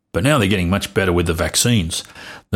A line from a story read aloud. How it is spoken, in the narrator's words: the Manchurian plague grumbled